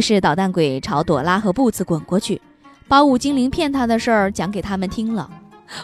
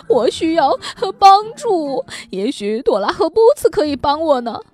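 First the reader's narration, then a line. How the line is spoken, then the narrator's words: Crying. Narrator (Chinese): 捣蛋鬼哭着说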